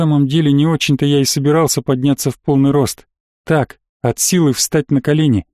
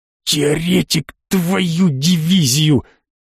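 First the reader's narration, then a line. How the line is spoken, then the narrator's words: Angry hiss in ear. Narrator (Russian): На самое ухо злобно зашипел Гудрон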